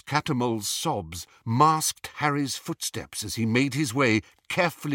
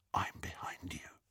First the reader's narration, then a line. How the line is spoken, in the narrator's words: he whispered into Hermione's ear